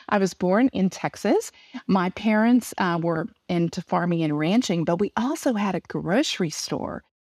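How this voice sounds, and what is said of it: Southern US accent. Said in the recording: “you're probably telling from my accent, it was somewhere in the south of the United States”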